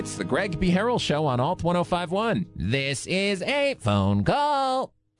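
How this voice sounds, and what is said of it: Robot voice. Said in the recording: “doing a little robot voice”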